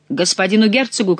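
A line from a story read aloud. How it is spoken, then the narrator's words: Shout. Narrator (Russian): крикнул главный ловчий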